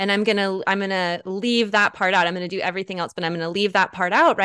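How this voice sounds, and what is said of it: Usual voice. Nothing is said of it.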